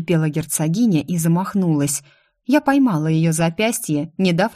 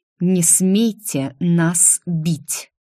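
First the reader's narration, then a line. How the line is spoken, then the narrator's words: Slow speech. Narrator (Russian): медленно произнесла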